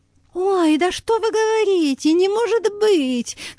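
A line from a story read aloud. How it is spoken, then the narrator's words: Exclaimed. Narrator (Russian): воскликнула Лариса Витальевна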